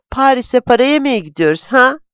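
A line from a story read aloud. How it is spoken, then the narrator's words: Shouting. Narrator (Turkish): diye bağırdı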